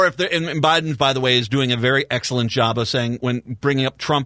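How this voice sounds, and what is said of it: Usual voice. Nothing is said of it.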